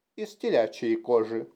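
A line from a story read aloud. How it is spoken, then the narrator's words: Plain. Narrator (Russian): ответил Джейсон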